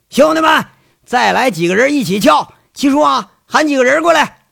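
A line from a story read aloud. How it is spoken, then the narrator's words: Shouting. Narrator (Chinese): 这黑大个就喊了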